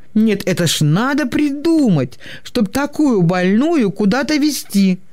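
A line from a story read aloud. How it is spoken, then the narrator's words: Grumbling kind nurse. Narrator (Russian): ворчала сердобольная медсестра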